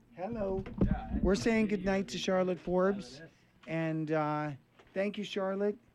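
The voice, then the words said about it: Breaking, strained voice. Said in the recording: “my voice is breaking.”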